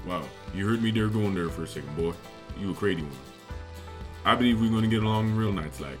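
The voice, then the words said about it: Cajun Southern accent. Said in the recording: “Cajun South to English translation manual ... having fun at the expense of your accent”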